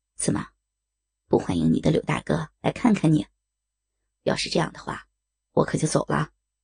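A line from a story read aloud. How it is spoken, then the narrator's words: Smiling gentle voice. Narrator (Chinese): 柳无心……微笑着……柔声道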